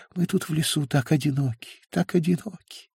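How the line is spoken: Breathless mumble. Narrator (Russian): едва дыша пробормотала она

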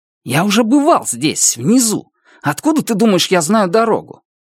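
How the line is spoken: Irritated. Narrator (Russian): Раскол раздраженно сказал

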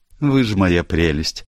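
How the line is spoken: Comical sigh. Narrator (Russian): уморительно вздохнула Барбара

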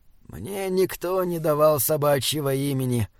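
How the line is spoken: Quiet. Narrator (Russian): тихо сказал Таузер

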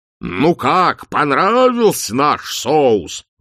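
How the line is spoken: Roaring. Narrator (Russian): взревел арканцлер

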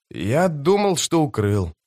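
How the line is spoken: Muttering. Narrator (Russian): пробормотал он

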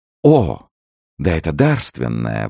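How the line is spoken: Queen exclaiming. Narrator (Russian): воскликнула королева

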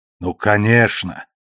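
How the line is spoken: Irritated snort. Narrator (Russian): раздраженно хмыкнул Фаис

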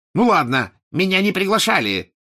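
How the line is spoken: Angry blurt. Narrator (Russian): сердито выпалил он

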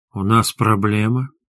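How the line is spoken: Purring tiger cub. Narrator (Russian): мурлычащим голосом спросила тигренок

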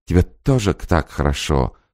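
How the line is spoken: Happy laughing babble. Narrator (Russian): со счастливым смехом пролепетала женщина

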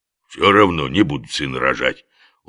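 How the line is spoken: Stubborn mutter. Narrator (Russian): упрямо буркнул Оболенский вслед удаляющемуся владыке

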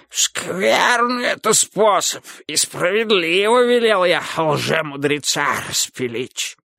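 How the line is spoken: Hoarse wheezing. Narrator (Russian): захрипел государь

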